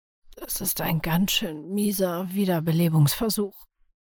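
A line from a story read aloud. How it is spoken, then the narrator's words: Raspy whisper. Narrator (German): flüsterte eine raue Stimme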